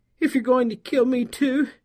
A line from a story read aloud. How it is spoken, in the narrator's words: she pleaded